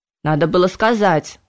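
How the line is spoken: Stern centaur remark. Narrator (Russian): строго заметил кентавр

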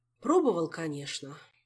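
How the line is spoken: Sighing. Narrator (Russian): вздохнул мэтр Истран

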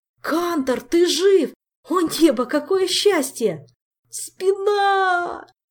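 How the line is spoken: Howling. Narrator (Russian): взвыл Кантер

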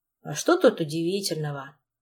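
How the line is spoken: Gloomy. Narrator (Russian): мрачно

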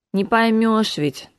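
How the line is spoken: Wistful sigh, young woman. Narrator (Russian): тоскливо вздохнула девушка

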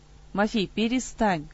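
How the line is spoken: Weary dismissal. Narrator (Russian): устало отмахивался старший товарищ

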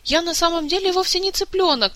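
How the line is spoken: Squeaky. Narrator (Russian): пропищал Мафей

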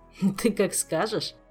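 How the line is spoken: Laughing king. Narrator (Russian): засмеялся король

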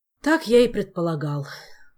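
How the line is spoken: Sighing king. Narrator (Russian): вздохнул король

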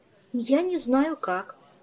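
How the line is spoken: Confused admission. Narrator (Russian): растерянно призналась Ольга

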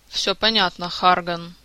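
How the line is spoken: Heavy sigh, hooded man. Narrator (Russian): тяжело вздохнул человек в капюшоне

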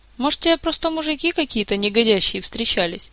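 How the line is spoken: Uncertain, puzzled suggestion. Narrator (Russian): неуверенно предположила Эльвира, озадаченная таким суждением

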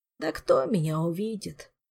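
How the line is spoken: Glum, dismissive. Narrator (Russian): уныло махнул рукой Орландо

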